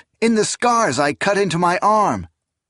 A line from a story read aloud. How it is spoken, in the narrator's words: Esmenet cried out